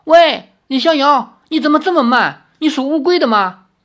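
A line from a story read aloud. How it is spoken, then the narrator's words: Anxious shout. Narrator (Chinese): 林月如急了，叫道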